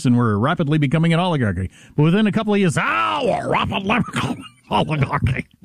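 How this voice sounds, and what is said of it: Bernie Sanders impression, northeastern accent. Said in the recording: “before he had the phlegm in the back of his throat. I'm Bernie Sanders ... his delightful northeastern accent”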